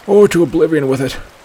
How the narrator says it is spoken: he panted

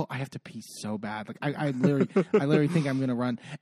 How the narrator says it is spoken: Lisa whispers to Nicole

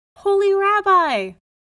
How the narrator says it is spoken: cried

